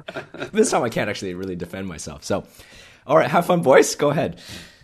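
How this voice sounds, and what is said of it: Hoarse, badly strained voice. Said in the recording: “my voice is absolutely shot ... my voice is gone”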